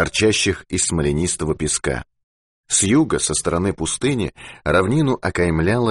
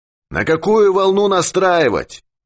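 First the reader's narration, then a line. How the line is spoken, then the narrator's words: Shouting. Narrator (Russian): крикнул Юрковский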